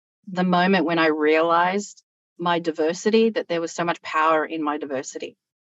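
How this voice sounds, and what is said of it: Strong Australian accent. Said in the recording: “my accent is very Australian”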